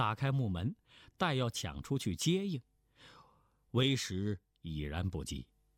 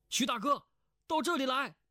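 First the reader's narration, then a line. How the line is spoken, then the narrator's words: Called out. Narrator (Chinese): 胡匪 叫道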